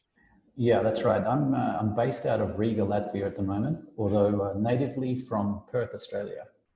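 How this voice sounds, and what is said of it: Slight Australian accent. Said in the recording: “I thought I detected a bit of an accent there.”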